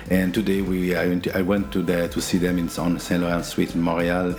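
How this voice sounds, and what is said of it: Non-native English accent. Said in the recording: “we're doing this in English for all our friends that speak the Shakespeare language... We have an accent”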